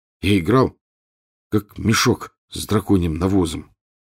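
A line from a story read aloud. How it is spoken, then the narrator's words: Muffled, hollow voice. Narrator (Russian): глухо сказал Рон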